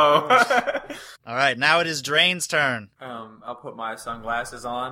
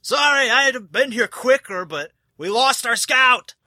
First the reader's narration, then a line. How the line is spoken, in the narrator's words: he yells